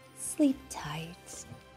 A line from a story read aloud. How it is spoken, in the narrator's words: Mama Bunny whispered